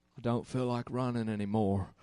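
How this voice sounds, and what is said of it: Poor Forrest Gump impression. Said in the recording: “I'm pretty lousy at Forrest Gump accents.”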